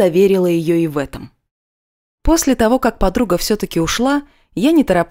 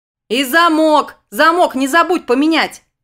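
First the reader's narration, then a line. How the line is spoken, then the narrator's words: Distant shout. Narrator (Russian): прокричала Арина уже с лестничной площадки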